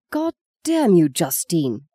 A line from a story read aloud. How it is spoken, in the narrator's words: gasped Peter, wiping the tears of pain from his eyes